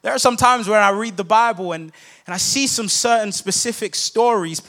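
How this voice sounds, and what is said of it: Noticeable non-native accent. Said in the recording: “Please mind my accent. I hope that you guys can understand me.”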